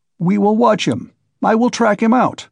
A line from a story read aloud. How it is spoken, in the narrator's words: cried Razumihin vigorously